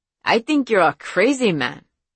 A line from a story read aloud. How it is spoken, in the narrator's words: he added with a tense laugh